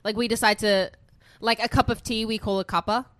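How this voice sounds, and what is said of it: Australian accent. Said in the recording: “You think my accent's funny? ... I think Australians just love to like shorten absolutely everything”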